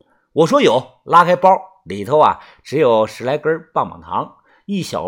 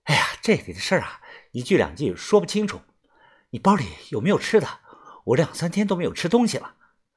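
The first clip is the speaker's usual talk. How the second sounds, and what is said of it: Speaking in a quiet, low voice. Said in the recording (Chinese): “小声的说道”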